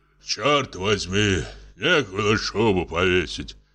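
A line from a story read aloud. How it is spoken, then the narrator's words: Hoarse bass voice. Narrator (Russian): хриплый бас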